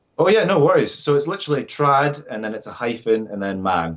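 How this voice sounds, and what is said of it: Scottish accent. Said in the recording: “you have an accent ... Scotland, of course.”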